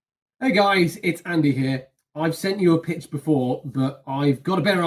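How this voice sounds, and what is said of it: Usual voice. Nothing is said of it.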